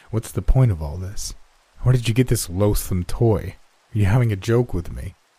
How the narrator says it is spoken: I spoke sharply

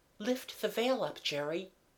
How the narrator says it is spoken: said in a whisper

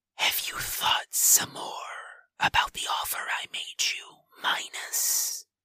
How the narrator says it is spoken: Typhon asks, his voice dropping, and the hiss in his throat becoming more prominent

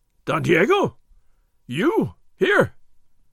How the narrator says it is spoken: Gonzales gasped

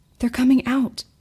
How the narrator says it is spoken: Joe hissed

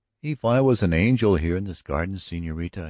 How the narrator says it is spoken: exclaimed

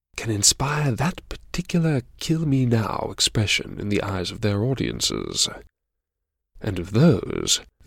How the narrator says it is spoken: your guardian angel whispered in your ear

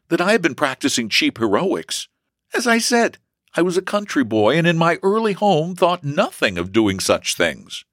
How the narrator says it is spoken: he replied earnestly

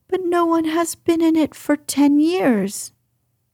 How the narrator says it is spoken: cried Colin

